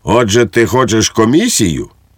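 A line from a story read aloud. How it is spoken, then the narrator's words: Barking. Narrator (Ukrainian): гаркнув на нього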